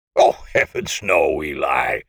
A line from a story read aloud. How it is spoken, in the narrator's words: my uncle would say with a chuckle